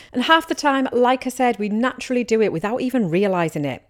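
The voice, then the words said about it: Teesside English accent. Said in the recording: “my dodgy Teesside accent”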